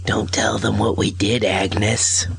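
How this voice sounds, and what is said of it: Bad imitation of another person's voice. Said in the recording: “doing a bad voice over the phone ... we have Harvey Fierstein on the call”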